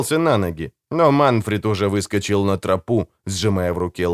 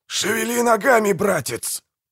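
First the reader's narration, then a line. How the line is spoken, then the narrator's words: Hoarse rasp. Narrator (Russian): прохрипел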